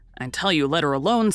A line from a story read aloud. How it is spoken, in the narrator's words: said Joe